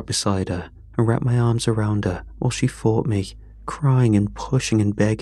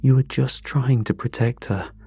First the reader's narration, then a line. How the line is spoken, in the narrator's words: I said, my voice shaking